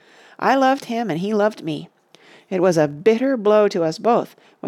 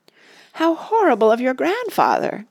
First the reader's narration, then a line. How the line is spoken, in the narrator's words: cried Randy